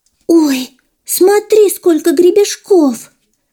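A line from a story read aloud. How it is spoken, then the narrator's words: Girl's surprised exclamation. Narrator (Russian): удивленно воскликнула девочка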